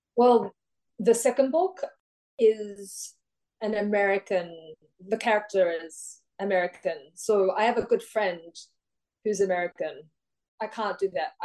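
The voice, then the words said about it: Australian accent. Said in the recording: “sound very Australian”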